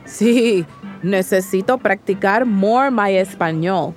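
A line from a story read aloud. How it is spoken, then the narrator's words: Father adding, laughing. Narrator (Spanish): añadió papá riendo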